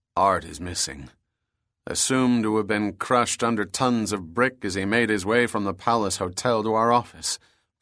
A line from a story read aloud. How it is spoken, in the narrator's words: Bronson answered solemnly